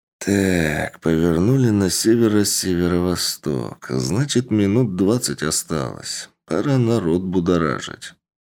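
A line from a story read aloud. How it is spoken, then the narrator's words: Muttering. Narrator (Russian): Александр, бормоча при этом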